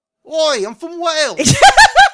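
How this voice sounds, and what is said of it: Vaguely English attempt at Welsh accent. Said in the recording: “I don't know what a Welsh accent sounds like, so I just went with vaguely English ... some kind of UK accent”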